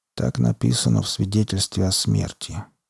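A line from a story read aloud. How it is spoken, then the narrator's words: Quiet. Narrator (Russian): тихо проговорил Троубридж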